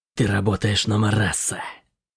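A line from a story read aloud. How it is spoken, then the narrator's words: Angry whisper. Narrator (Russian): сердито прошептала Генри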